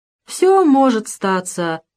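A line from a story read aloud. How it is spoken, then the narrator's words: Sad agreement. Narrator (Russian): грустно согласился Авдей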